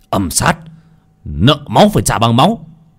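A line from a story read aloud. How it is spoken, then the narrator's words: Fierce shout. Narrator (Vietnamese): Cổ Phong hét lên một tiếng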